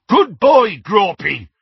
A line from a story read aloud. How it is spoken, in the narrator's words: he bellowed through the hole in the window